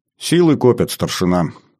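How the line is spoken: Calm commander speaking. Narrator (Russian): спокойно сказал комдив

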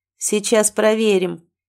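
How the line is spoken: Auctioneer's grunt. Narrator (Russian): хмыкнул смотритель аукциона

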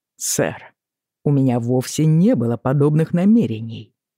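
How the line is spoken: Calm, even tone. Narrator (Russian): Джейми говорил спокойным, ровным тоном

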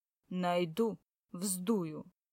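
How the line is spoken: Angry, gloomy assurance. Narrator (Russian): он помрачнел и злым голосом заверил

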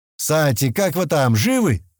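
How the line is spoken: Shout. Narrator (Russian): закричал он

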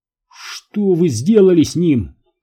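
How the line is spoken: Shout. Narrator (Russian): крикнул Джон

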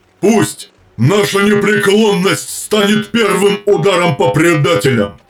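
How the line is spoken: Shout. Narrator (Russian): крикнул Ралдарон

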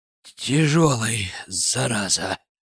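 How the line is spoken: Straining exhale. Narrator (Russian): Выдохнул я, поднатужившись

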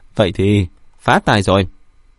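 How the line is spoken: Excited loud laughter. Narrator (Vietnamese): Vân Vị Sương hưng phấn cười to

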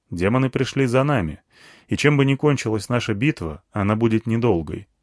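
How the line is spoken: Plain. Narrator (Russian): сказал

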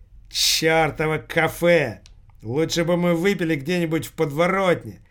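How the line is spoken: Loud angry cursing. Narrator (Russian): Начал громко ругаться парень

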